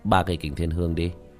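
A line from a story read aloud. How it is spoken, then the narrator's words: Cold faint laugh. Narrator (Vietnamese): Tiểu Thất cười nhạt nói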